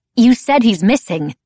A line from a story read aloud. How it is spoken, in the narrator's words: she said fiercely